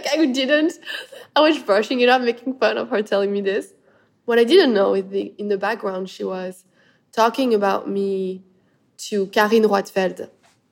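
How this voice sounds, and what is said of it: Speaks with a noticeable accent. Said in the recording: “your beautiful accent”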